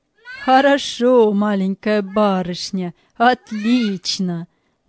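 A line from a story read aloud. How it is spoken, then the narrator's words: Laughing. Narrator (Russian): смеялся Галлер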